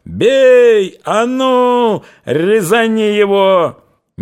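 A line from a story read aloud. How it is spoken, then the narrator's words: Fierce yelling. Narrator (Russian): Емельян люто орал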